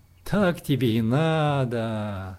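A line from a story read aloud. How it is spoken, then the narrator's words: Stranger laughing. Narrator (Russian): смеялся незнакомец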